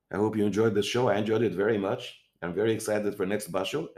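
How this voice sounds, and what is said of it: Strained, fading tired voice. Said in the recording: “I'm losing my voice already. I'm tired.”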